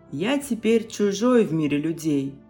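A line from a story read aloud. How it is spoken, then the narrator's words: Sighing. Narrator (Russian): сказал и вздохнул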